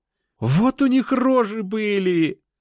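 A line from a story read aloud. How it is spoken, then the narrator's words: Laughing. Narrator (Russian): рассмеялась Анюта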